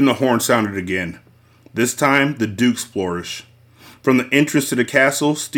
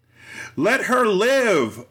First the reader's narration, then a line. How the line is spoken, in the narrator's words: a voice shouted from the crowd